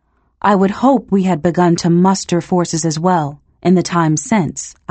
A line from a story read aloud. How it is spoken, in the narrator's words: I said